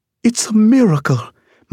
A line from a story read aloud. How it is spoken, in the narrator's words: my Aunt Connie cried